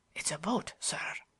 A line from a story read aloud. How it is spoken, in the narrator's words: whispered Bates